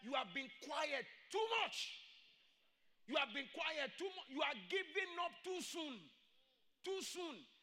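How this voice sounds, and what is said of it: Shouting preacher. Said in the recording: “Why is this pastor shouting? I'm shouting”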